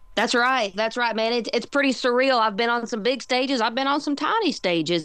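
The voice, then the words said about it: Southern US accent. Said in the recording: “I love your voice. ... You've got such a speaking voice. ... that Southern accent”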